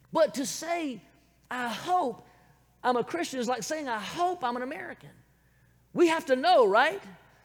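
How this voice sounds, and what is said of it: Southern American accent. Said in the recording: “born, raised right here in the good old South ... this accent is from America. And from the southern part of America”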